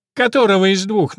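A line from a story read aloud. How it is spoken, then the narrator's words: Mocking question. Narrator (Russian): насмешливо спрашивает меченый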